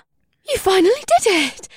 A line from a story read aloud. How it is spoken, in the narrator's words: Ibsith squealed